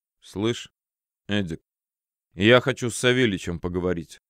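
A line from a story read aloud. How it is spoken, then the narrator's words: Muffled. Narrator (Russian): глухо произнес я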